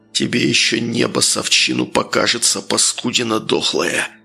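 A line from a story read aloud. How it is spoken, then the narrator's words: Snorting growl. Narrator (Russian): Хмыкнув ... Архип прорычал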